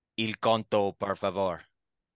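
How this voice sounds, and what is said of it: Put-on Italian accent, Borat-like. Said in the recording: “You're sounding more like Borat than someone from Italy.”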